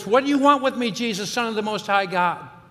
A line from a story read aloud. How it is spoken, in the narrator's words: the man yells at the top of his voice